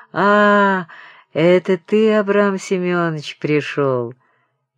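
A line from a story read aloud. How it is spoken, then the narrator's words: Gentle, sing-song voice. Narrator (Russian): Крижов ласковым певучим голосом говорил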